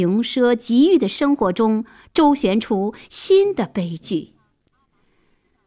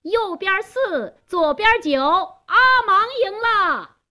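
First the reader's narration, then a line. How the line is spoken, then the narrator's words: Loud shout. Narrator (Chinese): 贾斯东…高声喊道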